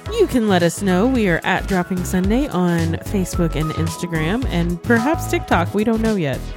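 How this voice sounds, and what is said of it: Polished customer-service phone voice. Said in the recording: “customer service voice ... That's my phone voice ... for work”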